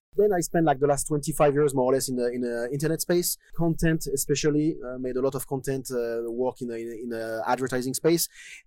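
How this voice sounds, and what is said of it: Strong French accent. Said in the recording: “I'm from France, yeah. ... This accent, you cannot miss it.”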